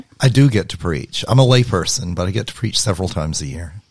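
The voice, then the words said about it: Alabama Southern accent. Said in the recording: “an accent. ... From Alabama.”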